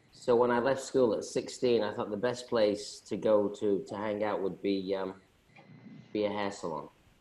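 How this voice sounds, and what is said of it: Slight accent. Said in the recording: “you've got a little bit of an accent to your voice”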